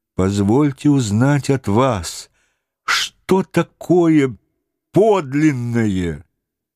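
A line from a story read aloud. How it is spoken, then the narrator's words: Sad question. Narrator (Russian): Конфуций печально спросил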